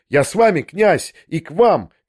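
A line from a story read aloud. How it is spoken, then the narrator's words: Shout. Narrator (Russian): крикнул я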